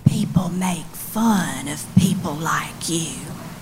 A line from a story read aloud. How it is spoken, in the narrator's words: in an almost whisper, she said